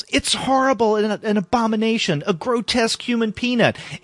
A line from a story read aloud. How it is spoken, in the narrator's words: the guy yells